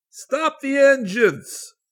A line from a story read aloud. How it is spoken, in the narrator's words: Tom Bishop yelled